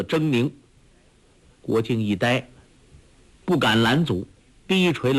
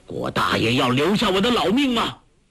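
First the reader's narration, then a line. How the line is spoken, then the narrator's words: Stern shout. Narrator (Chinese): 柯镇恶厉声喝道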